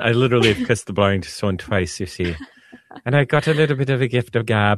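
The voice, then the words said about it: Put-on Irish accent. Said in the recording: “I shouldn't be doing it in the Irish accent.”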